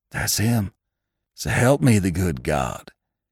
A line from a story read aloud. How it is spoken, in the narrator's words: came from Hank in a whispering cry, half choked